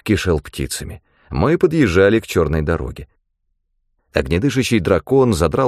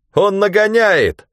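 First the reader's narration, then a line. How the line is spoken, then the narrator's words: Shouting. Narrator (Russian): крикнул Ганилон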